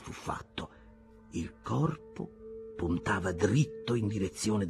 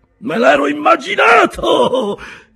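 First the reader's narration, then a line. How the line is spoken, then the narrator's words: Cook shouting. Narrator (Italian): gridò il cuoco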